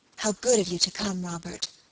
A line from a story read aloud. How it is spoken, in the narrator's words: she added in the same whispered tones